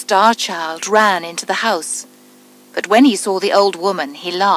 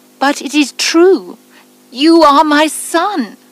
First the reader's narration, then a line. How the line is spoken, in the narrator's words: she cried